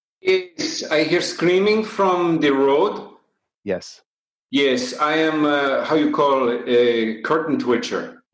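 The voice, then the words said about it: Patchy half-Irish foreign accent. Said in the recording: “my accent is uh, is slightly Irish and slightly from the country I am from ... it's patchy ... your accent sounds a little bit off”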